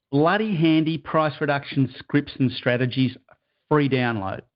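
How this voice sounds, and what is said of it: Broad Australian accent. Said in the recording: “You've got to say it like an Aussie ... in his broad Aussie accent.”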